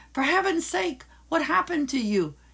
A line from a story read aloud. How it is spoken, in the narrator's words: Sophie cried out